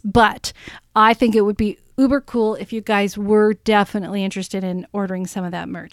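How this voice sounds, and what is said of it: Voice sounds off, unwell. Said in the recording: “my voice is still not sounding right”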